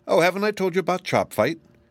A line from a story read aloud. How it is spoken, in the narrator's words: exclaimed Kuklip